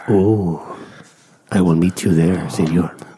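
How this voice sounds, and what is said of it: Whispering into the microphone. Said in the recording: “I'm going to whisper everything into the microphone like this.”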